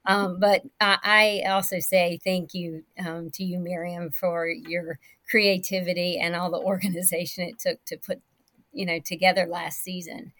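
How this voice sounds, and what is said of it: Southern American accent. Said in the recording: “my Southern voice ... now you get a little Southern with me”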